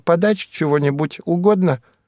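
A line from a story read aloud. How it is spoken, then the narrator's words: Squeaky voice. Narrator (Russian): Кайса и пропищала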